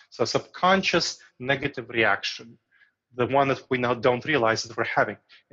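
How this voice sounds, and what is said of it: Foreign accent. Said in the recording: “people with foreign accents ... because of my accent”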